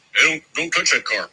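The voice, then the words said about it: Impression of a security guard. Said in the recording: “my impression of a security guard at a vintage auto show.”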